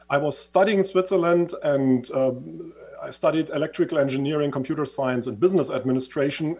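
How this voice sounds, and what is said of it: Swiss-influenced accent. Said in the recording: “as you can hear from my accent, I used to live in Switzerland.”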